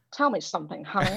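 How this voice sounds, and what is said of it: Bad put-on American accent. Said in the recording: “In my really bad, like, America ... bad American accent”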